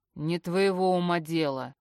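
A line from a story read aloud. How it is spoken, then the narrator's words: Menacing uncontrolled growl. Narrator (Russian): рычит грозно, срываясь с катушек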